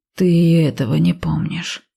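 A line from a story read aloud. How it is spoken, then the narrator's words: Moaning. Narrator (Russian): простонал Ив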